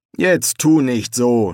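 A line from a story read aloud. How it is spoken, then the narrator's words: Mocking. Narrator (German): spöttelte Joshua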